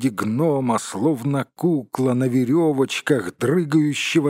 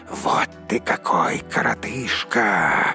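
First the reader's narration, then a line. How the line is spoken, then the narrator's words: Hissing. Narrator (Russian): зашипели они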